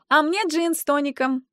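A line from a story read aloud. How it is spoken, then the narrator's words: Cheerful shout. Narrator (Russian): весело кричит Левашова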